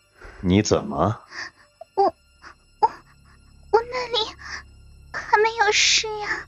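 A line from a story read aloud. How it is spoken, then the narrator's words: Quiet. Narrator (Chinese): 他 小声地说道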